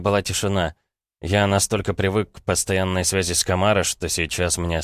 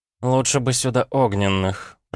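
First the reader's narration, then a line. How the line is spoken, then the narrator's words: Grumbled. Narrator (Russian): проворчала эрга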